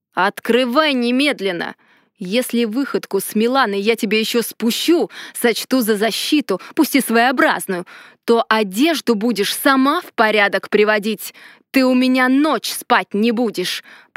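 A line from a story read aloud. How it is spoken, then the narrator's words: Growl. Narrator (Russian): прорычал Ардар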